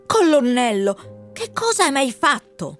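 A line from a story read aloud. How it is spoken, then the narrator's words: Wind hissing. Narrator (Italian): sibilò il vento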